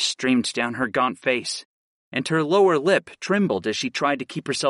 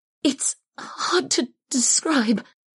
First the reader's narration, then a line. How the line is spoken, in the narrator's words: the wounded woman whimpered